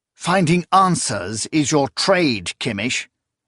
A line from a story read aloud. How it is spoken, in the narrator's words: Zorias snapped